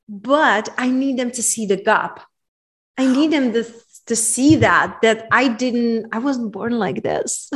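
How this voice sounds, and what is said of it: Czech-accented English. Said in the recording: “where are you from originally? Because your accent is so beautiful. ... Czech Republic.”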